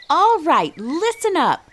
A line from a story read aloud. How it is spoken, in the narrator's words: Miss Melanie shouted